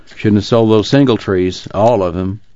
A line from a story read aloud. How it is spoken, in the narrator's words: He grumbled